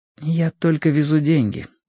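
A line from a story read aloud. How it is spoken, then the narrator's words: Quiet reply. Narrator (Russian): тихо ответила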